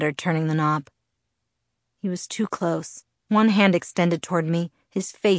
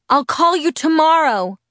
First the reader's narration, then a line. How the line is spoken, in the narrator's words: I yelled, wishing more than anything that I could explain everything to him right then, knowing I would never be able to